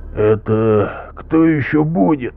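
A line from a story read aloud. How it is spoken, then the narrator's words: Hoarse asking after cough. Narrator (Russian): раздался кашель, и сиплый голос спросил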